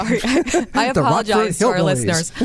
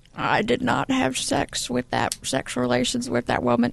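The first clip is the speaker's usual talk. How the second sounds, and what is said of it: Bill Clinton impression, old grandfatherly. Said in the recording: “your Bill Clinton impersonation ... It was like a grandfather ... from ... 1950s ... Sitcom.”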